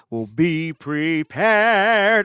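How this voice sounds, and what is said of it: Imitates a villain character's voice. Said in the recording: “my best Scar impression... Some Jeremy Irons, man.”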